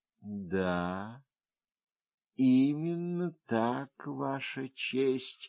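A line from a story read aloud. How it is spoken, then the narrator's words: Even, steady answer. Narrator (Russian): ответила она тем же ровным голосом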